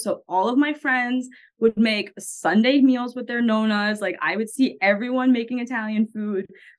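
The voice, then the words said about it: Long Island New York accent. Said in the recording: “the New York, like specifically Long Island, how everyone like makes fun of my accent.”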